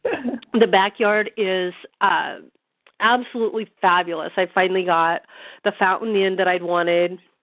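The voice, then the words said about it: Hoarse, strained voice. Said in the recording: “I'm really losing my voice.”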